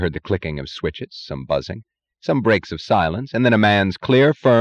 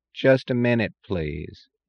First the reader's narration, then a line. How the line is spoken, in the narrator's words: drawled the voice in the impatient tone that resents any effort as an imposition